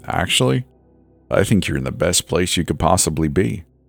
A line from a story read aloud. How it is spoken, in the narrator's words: the old man said with that same chuckle again